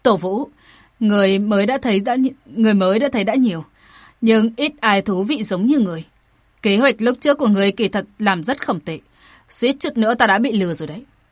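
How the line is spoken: Laughing man speaking. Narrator (Vietnamese): bỗng nhiên gã bật cười, mở miệng nói

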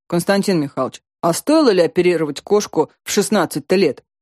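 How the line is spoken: Young man's deep bass. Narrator (Russian): пробасил парень

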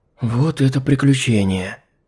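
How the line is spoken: Relieved exhale. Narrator (Russian): Облегчённо выдохнула Алиса

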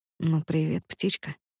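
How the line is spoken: Hoarse. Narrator (Russian): Руслан говорит сипло

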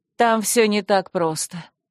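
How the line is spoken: Sigh, then stern warning. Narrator (Russian): вздохнула Альмиса и неожиданно строго предупредила

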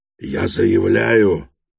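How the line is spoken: Hoarse, dry throat. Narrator (Russian): прохрипел Гаганов, у него пересохло горло

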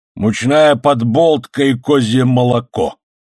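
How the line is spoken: Disgusted grumble. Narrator (Russian): с пренебрежением и отвращением проворчал сержант Гонзалес

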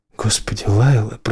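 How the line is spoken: Mutter. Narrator (Russian): пробормотал он

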